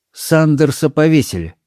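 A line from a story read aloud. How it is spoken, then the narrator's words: Cold reply. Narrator (Russian): холодно ответила мисс Марпл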